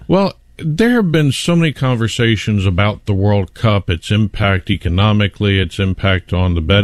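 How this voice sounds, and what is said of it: Usual voice. Nothing is said of it.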